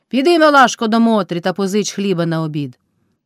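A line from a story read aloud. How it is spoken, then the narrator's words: Shrill, scalded shout. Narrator (Ukrainian): кайдашиха крикнула так, наче на неї хто линув кип'ятком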